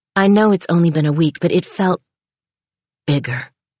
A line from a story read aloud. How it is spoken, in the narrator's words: he said, his voice breaking on the word